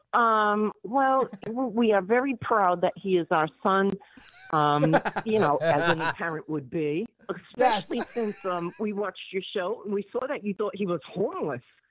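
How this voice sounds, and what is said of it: Speaks with a noticeable accent. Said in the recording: “I love that accent”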